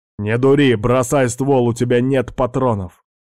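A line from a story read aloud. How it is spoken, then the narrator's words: Shouted reply. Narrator (Russian): прокричал в ответ Алекс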